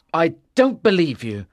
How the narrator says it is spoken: Arthur said angrily

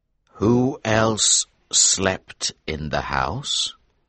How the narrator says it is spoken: he repeated slowly

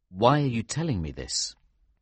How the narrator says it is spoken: I asked her

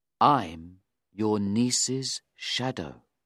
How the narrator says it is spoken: Beckwith said quietly

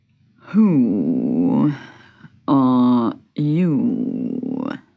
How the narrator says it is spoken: He asked sleepily

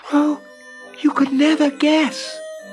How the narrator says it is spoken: she cried

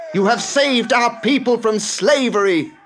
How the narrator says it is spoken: cried

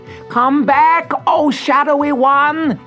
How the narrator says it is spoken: yelled

